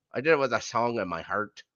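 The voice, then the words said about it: Irish-accented impression of Angel. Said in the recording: “sounds Irish ... He's Irish”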